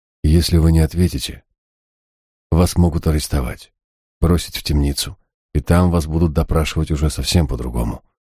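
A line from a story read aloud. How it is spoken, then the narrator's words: Even voice. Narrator (Russian): ровным голосом сообщил я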